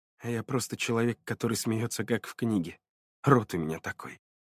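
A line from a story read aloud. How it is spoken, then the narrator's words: Quiet conscript speaking. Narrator (Russian): тихо проговорил срочник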